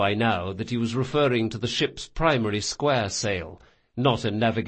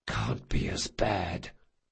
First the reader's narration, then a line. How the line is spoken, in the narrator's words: Jean whispered to Locke